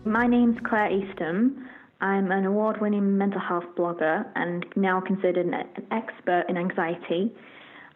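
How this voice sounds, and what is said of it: British accent. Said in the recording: “she has a cool accent ... a British version of myself”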